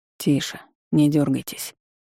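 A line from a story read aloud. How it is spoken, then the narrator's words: Mutter. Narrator (Russian): пробормотал Редхейвен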